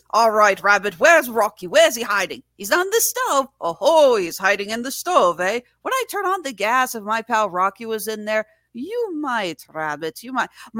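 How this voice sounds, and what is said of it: Inconsistent put-on Irish accent. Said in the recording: “My Irish accent comes and goes in waves.”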